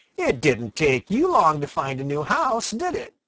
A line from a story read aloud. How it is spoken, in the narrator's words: exclaimed Peter